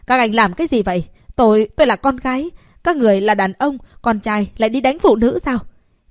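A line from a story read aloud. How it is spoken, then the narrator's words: Shrill, deafening shout. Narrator (Vietnamese): Chị Phiêu lùi lại cao giọng hét điếc lỗ tai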